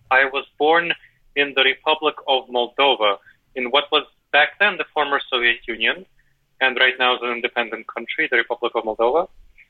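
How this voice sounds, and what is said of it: Former Soviet Union accent. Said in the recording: “my accent is from the former Soviet Union”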